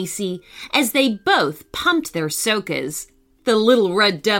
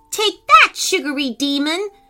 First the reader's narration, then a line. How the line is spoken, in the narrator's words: shouted Macey